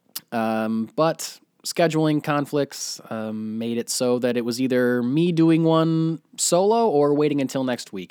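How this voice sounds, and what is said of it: Sick-sounding, not fully recovered voice. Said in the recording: “I was completely sick with the flu... You can probably tell from my voice, I'm still not completely over it”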